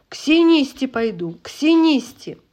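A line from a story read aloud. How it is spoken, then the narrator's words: Loud insistent shout. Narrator (Russian): хотелось кричать громко и настойчиво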